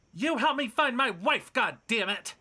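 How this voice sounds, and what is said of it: Angry yelling. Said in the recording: “stop yelling!”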